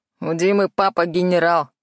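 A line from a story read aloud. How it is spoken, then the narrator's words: Snorting. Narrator (Russian): хмыкнул Длинный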